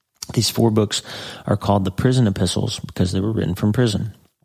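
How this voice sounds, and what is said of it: Slightly weird-sounding voice. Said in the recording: “I'm having a little drainage in my throat today, so my voice is a little weird”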